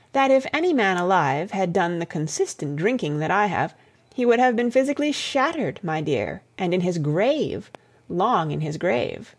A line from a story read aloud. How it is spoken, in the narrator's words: her voice sang on a confidential note